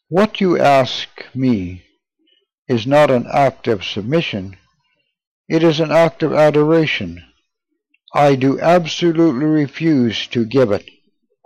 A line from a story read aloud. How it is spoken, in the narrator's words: calmly answered